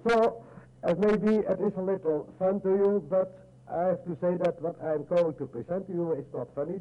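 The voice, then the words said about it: Dutch-accented English. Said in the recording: “we just enjoy your accent ... I learned British English at school in Holland”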